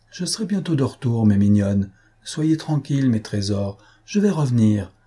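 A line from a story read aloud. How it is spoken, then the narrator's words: Tender, gentle call from afar. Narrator (French): leur criait-elle de loin, d'une voix tendre et douce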